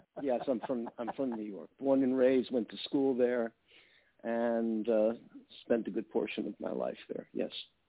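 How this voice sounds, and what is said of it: New York accent. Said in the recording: “Can't you tell from my accent? ... I'm from New York.”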